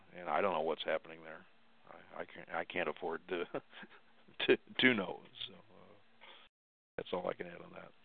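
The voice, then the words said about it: Weak, fading, worn-out voice. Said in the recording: “my voice is giving out... I was hearing just a little bit of you... dropping your voice... My voice was wearing out for the night.”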